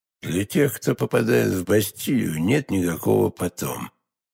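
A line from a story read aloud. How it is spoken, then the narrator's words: Muffled, hollow voice. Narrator (Russian): глухим голосом ответил кардинал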